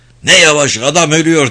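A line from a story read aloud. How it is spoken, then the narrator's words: Shouting at top of lungs. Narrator (Turkish): diye avaz avaz bağırdı Krimov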